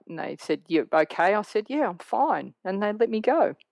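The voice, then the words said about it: Australian accent. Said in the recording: “Australian girl ... they heard my accent”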